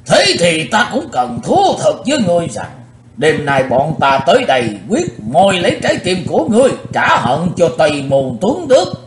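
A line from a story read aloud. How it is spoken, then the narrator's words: Old man shouting loudly. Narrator (Vietnamese): Lão râu ria sầm soạn quát lớn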